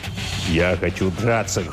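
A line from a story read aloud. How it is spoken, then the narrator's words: Angry declaration. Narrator (Russian): злобно заявил тот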